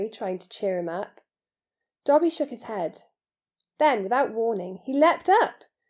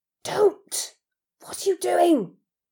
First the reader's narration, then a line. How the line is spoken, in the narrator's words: Harry hissed